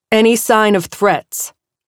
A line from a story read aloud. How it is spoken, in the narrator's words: Aurora snapped